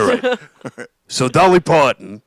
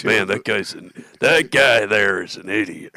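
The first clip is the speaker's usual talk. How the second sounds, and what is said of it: Imitating a friend's impression. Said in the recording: “That was me doing an impression of you doing an impression of the guy.”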